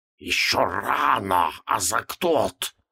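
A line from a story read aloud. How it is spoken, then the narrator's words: Anxious hiss. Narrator (Russian): раздалось обеспокоенное шипение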